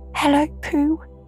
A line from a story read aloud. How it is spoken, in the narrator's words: he squeaked